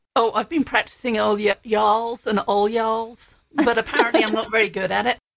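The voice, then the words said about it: Strong British English accent. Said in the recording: “I love it that you still have such a strong accent ... originally from the UK”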